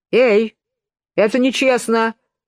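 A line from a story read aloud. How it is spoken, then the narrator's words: Shouted. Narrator (Russian): закричал единорог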